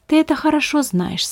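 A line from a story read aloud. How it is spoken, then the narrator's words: Calm reply. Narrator (Russian): спокойно ответил Беппа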